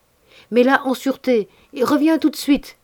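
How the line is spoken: Shouted. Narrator (French): criai

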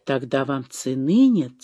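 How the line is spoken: Quiet. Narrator (Russian): тихо сказала ему Ольга

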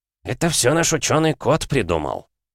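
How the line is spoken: Muffled snort into beard. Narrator (Russian): хмыкнул он в бороду

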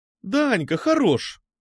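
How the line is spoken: Exclaiming. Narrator (Russian): воскликнула Алиса

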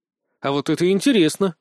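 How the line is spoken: Snort. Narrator (Russian): хмыкнул я

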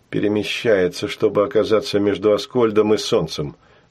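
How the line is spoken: Gloomy reply. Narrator (Russian): мрачно отозвался Сашка

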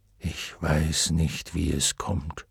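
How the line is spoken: Low murmur. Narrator (German): raunte Fuchur

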